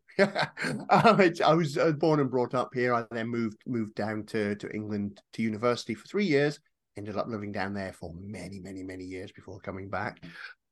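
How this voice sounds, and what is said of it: Northeast Scottish accent. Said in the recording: “I live up in the northeast of Scotland. As you can tell by the accent”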